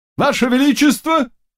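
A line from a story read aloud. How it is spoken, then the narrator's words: Exclamation. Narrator (Russian): воскликнул он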